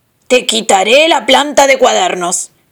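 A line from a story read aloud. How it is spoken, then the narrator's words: Deep roar. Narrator (Spanish): rugió con su gran boca negra de horno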